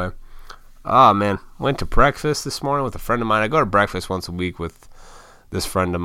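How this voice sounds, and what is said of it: Usual voice. Nothing is said of it.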